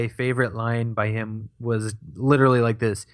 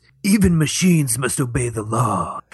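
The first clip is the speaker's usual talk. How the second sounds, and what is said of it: Raspy, low, throaty character voice. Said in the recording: “his voice was. It's just, it's so raspy ... he enunciates everything, and it's just a low tone. It's like just speaking from the back of his throat”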